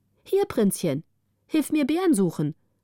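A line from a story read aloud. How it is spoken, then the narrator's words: Calling from hiding. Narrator (German): rief die eine hinter einem Baum hervor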